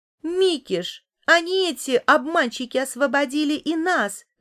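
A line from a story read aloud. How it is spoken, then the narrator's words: Emboldened shouting princesses. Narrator (Russian): закричали две другие принцессы, которым присутствие Микиша придало смелости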